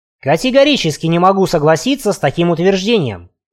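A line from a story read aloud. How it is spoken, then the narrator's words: Sharp, curt. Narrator (Russian): резко бросил Гольдбрейх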